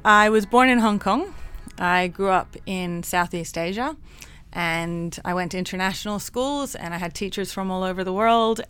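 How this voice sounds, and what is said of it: Mixed international accent. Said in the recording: “my accent's all kind of funky”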